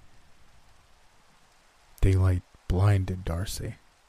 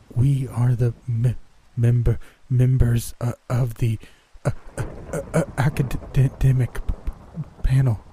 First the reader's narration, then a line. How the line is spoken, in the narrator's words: Darcy murmured, reciting the entire speech in a blurry shock